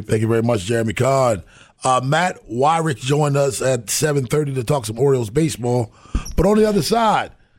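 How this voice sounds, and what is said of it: Strained, fading hoarse voice. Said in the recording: “I am losing my voice.”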